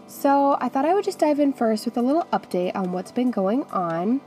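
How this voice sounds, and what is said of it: Sick, rough voice. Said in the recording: “I was sick for about 2 weeks ... My voice is really bad. It's still not 100% normal”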